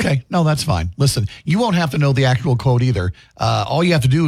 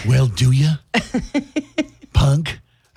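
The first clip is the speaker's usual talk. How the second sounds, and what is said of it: Poor imitation of another person's voice. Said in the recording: “my horrible Clint Eastwood impersonation”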